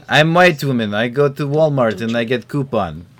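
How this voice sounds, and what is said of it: Mock Russian-style accent, broken English. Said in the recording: “people who have that accent ... I honestly don't even know what accent we were doing ... most white women aren't Russian”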